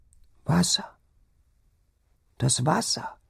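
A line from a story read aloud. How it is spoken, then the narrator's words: Sick woman whimpering. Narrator (German): wimmerte die Kranke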